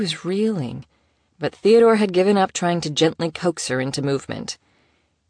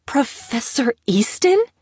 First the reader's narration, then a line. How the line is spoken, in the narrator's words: she spluttered, choking on the first mouthful she had hastily bitten off